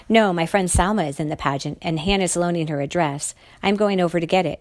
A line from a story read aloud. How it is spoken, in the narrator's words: I said